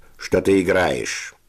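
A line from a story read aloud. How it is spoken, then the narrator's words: Contemptuous, through teeth. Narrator (Russian): процедил сквозь зубы Севочка с бесконечным презрением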